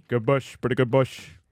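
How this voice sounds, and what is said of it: Imitates another person's voice. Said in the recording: “How's my De Niro, Bobby? Good?”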